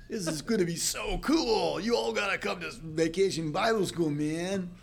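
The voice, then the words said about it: Put-on California accent. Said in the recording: “I'm going to try to do the California accent”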